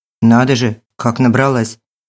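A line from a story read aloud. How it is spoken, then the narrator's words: Disapproving tone. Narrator (Russian): осуждающим тоном проговорил водитель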